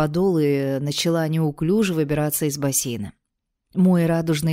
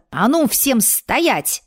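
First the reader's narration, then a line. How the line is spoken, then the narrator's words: Barked command. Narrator (Russian): рявкнула я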